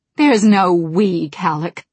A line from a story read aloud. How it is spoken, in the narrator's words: she said bitterly